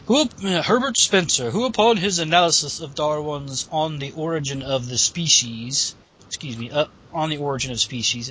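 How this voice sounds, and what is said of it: Arrogant put-on accent. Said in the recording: “Does that sound better with that arrogant accent?”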